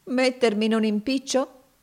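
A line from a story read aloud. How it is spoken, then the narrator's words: Ironic exclamation. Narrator (Italian): esclamò Finea con una certa espressione singolare ed ironica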